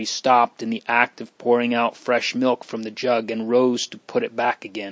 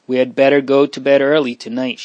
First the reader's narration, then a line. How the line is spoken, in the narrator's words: she said